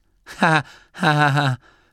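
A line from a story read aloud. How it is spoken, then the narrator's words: Joyless laughter. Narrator (German): lachte Gurda freudlos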